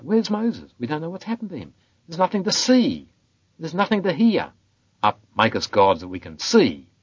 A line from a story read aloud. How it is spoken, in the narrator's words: the people cried out